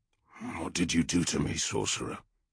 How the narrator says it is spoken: he growled, holding back the urge to seize Leak and pound the answer from him

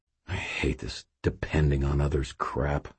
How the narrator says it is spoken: I muttered

